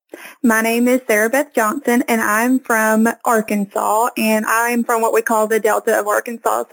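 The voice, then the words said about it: Southern Arkansas accent. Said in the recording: “a Southern Belle ... your beautiful accent ... a Southern Arkansas accent”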